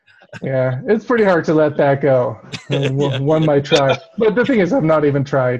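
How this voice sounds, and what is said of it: Michigan accent with heavy R's. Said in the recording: “He got an accent. He got a there's a way he pronounced certain words. So it's like a some heavy R's, I guess. ... all your Michigan talk”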